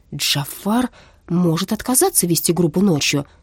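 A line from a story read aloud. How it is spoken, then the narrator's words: Calm. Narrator (Russian): спокойно сказала она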